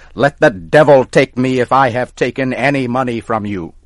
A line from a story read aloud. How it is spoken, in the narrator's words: Tom got angry and started to shout